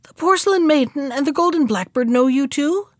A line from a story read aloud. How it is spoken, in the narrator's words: cried the master